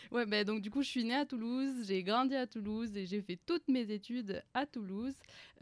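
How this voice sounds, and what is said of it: French accent from Toulouse. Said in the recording (French): “je suis française, comme on l'entend, mon accent. Et j'espère qu'on entend aussi que je suis toulousaine plus que française ... on n'a pas le même accent ... Surtout la manière de dire juin.”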